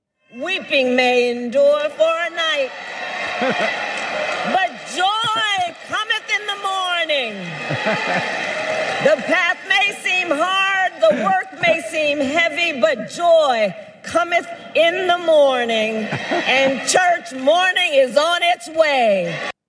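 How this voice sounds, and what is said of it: Preacher-style pastor accent. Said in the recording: “Kamala Harris unveil her new pastor accent during a church service”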